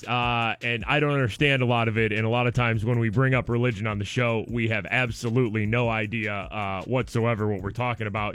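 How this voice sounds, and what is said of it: Hoarse voice starting to go. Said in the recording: “hear it in my voice. My voice is kind of, it's starting to go out. I got a sore throat right now.”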